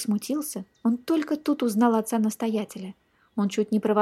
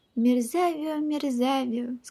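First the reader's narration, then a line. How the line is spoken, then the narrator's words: Sad old abbot. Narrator (Russian): сказал отец-настоятель печально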